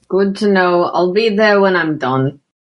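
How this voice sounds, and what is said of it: Exaggerated approximate Scottish accent. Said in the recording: “Jack's accent... I'm not pretending that it's actually a Scottish accent. It's my approximation of Jack's exaggerated Scottish accent.”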